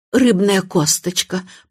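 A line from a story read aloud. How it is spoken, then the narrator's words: Hoarse rasp. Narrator (Russian): прохрипела она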